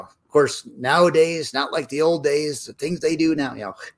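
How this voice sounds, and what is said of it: Crotchety old man voice. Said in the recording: “my crotchety old man voice.”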